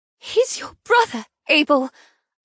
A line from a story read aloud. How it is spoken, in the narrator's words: I exclaim, unable to believe he would kill his own blood